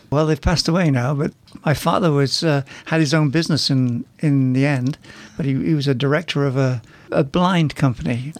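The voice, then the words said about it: Northwest English accent. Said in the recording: “your accent is not exactly from around here ... England, in the northwest of England”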